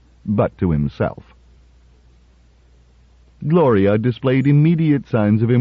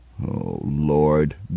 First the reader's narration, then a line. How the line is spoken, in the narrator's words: groaned